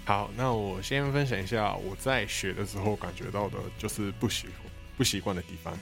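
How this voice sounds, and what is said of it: Somewhat heavy non-local accent. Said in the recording (Chinese): “口音，就会觉得说，哎，一定不是本地台湾人吧？就是口音稍微有点重”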